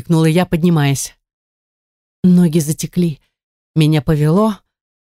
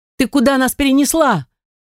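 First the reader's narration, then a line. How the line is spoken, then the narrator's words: Shouting. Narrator (Russian): закричала я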